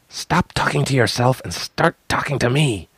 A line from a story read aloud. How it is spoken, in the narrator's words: whispered fiercely